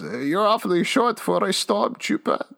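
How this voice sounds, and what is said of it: Odd put-on character voice. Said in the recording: “What is that voice? ... Werner Herzog impression”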